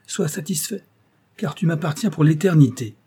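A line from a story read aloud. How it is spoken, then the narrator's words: Exclaimed with sinister laugh. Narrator (French): s'écria le diable, avec un rire sinistre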